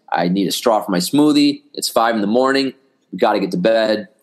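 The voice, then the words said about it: Hoarse, fading voice. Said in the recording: “Man, I'm losing my voice.”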